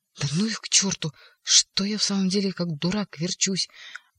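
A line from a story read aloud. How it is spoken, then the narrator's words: Angry hiss. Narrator (Russian): прошипев почему-то со злобой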